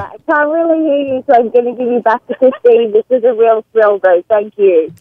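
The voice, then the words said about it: Australian accent, hard to understand. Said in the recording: “Australian as shit. ... Boy, it's hard to understand. ... Cell phone and the Australian accent are working fantastically together.”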